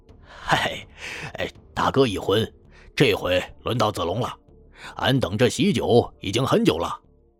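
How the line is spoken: Laughing. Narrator (Chinese): 张飞探头笑道

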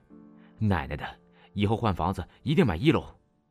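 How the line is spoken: Panting complaint. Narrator (Chinese): 他喘着气再次抱怨

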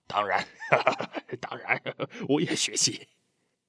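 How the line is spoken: Laughing. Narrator (Chinese): 德武笑了

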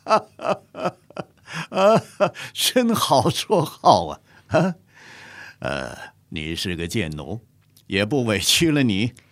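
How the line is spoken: Bursting into laughter. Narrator (Chinese): 乾隆爆发出一阵大笑

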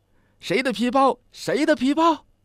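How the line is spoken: Shouting. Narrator (Chinese): 喊道

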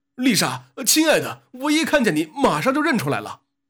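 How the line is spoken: Affectionate shouting. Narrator (Chinese): 海盗亲热地叫嚷着

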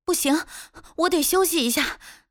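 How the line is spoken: Breathless, panting. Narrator (Chinese): 他大口喘着气……道

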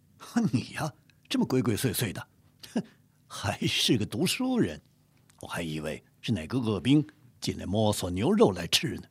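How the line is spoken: Laughing. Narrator (Chinese): 海兰察…不禁笑道

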